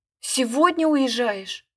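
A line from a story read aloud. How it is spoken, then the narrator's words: Desperate exclamation. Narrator (Russian): воскликнула я, и такое на меня нашло отчаяние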